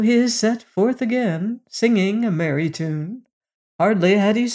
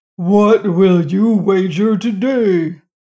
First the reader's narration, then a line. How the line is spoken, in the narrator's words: roared the giant